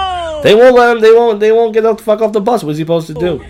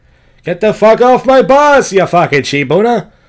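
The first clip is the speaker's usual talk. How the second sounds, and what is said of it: Poor Elliot Alfin gangster-talk impression. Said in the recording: “he kind of looks like Elliot Alfin. For those of you who follow Howard Stern, gangster talk, right? ... That's not a good impression.”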